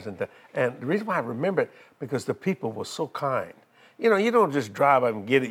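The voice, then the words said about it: New Orleans accent. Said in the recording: “they said I talk funny. I guess in my accent. I said, I'm from New Orleans.”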